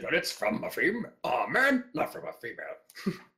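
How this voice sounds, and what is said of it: Imitates another person's voice. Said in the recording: “You have such a good impression of that.”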